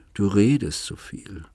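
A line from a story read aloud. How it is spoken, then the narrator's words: Sigh. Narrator (German): seufzte sie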